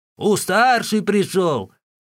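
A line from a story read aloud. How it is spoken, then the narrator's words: Old woman shouting. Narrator (Russian): старая … могла лишь крикнуть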